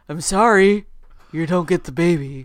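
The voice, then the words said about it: Imitates a TV character's voice. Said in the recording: “That's a good Darlene impression.”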